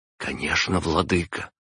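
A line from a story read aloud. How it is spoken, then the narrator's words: Whisper. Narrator (Russian): прошептала она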